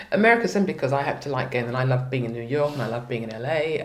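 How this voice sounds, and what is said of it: English accent. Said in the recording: “my English accent... that English accent”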